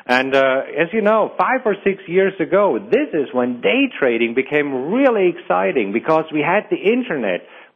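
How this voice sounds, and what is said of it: German accent. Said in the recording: “Originally, I'm from Germany, and that's the accent that you're hearing.”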